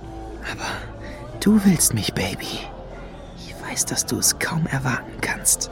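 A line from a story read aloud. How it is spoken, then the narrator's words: Whispered. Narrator (German): flüsterte er Lady Luna zu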